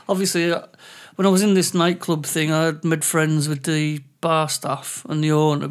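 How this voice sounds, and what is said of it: English accent. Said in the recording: “I'm English and I've got an English accent”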